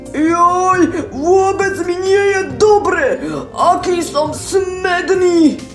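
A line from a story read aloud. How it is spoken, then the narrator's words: Groggy grumbling wolf. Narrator (Slovak): Vlk sa prebudil a hromžil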